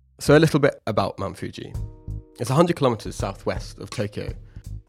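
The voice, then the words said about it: Congested voice, sounds like a cold. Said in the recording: “I sound like I have a cold”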